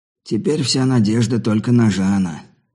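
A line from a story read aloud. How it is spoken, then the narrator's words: Heavy sigh. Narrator (Russian): тяжко вздохнув, проговорил подошедший Джефф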